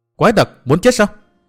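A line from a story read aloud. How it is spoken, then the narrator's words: Loud shout. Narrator (Vietnamese): Bích Duyên Hồng hét to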